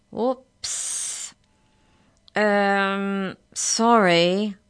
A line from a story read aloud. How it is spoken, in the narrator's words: said slowly